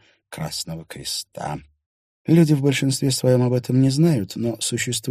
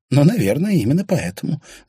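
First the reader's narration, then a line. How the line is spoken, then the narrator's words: Laughing. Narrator (Russian): засмеялась Кая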